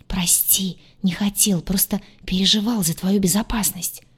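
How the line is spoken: Whispered reply. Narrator (Russian): также шепотом ответил Крейг

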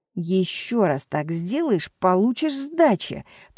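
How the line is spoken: Hiss. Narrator (Russian): прошипел

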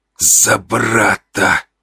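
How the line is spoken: Hissed. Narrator (Russian): прошипел он

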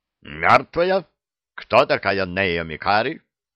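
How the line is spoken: Barked. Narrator (Russian): Лейтенант Бройзен рявкнул

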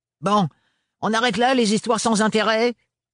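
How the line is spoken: Abrupt interruption. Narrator (French): les interrompit Gaëlle d'un ton brusque

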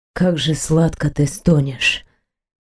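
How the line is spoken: Aroused whisper with smile. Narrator (Russian): Сквозь собственное возбуждение мужчина вдруг улыбнулся уголками рта и прошептал

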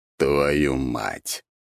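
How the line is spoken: Groaning. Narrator (Russian): простонал Дориан

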